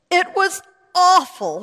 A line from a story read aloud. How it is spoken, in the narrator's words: she cried